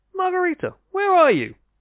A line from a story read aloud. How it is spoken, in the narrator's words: cried out